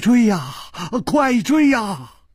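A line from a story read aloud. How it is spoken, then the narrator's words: Terrified trembling voice. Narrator (Chinese): 金半花早已经是面无人色了，他颤声说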